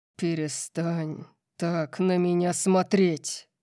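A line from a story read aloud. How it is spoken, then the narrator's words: Terrifying growl. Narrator (Russian): Прорычал ужасающего тона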